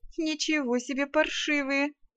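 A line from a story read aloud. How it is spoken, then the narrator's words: Indignant laugh. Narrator (Russian): возмущенно хохотнула я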